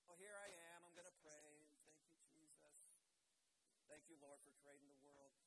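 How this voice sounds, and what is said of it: Sarcastic, insincere delivery. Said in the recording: “I'm being sarcastic ... an ounce of insincerity”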